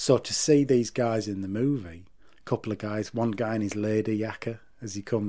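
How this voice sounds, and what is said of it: Usual voice. Nothing is said of it.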